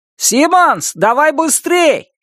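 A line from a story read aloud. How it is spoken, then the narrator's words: Shout. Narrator (Russian): крикнул Норми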